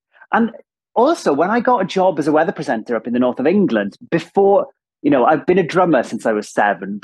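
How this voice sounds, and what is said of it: Strong Welsh accent. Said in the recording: “I've got this super strong Welsh accent ... somebody with such a strong Welsh accent”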